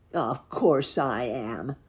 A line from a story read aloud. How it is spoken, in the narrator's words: growled the wolf